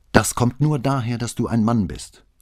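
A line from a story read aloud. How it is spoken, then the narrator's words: Angry hiss. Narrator (German): hatte wütend angezischt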